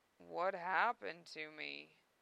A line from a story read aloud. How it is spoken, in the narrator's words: he moaned